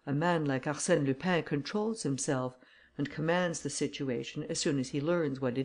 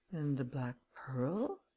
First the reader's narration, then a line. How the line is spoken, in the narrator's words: he murmured